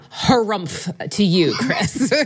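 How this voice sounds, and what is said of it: Imitates another person's voice. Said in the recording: “That's yeah. the best that I got. It's my best Joe hmm. Patrice uh, impersonation.”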